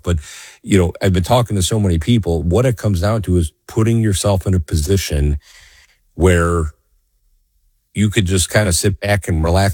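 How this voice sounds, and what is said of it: Slightly scratchy voice. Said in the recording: “my voice may be a little scratchy today, folks... I'm not my normal self”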